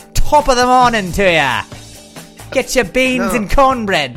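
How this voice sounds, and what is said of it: Put-on Irish accent. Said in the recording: “I was trying to pew in my Irish accent... do your Irish accent or do your English accent, but just slur”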